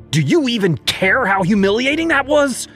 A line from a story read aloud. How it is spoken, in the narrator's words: she yelled